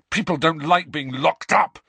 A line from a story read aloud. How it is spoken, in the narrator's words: Harry said furiously